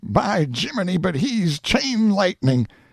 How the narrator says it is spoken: A storm burst of laughter mingled with shouts of

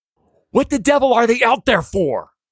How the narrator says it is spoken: George almost screams

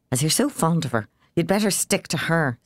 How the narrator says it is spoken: snapped Fanny

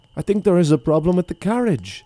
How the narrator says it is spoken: the prince cried

